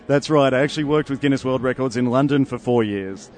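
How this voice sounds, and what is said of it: Australian accent. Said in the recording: “you're from Australia... I can tell by the accent.”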